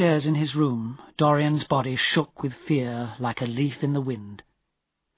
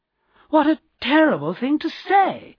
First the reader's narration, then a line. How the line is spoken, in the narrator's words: cried Lady Monmouth